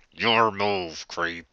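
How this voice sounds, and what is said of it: Poor RoboCop voice impression. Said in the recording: “I can't do a RoboCop voice. ... it's the shittiest RoboCop ever.”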